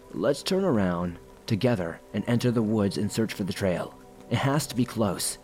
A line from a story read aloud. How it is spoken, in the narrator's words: Ian said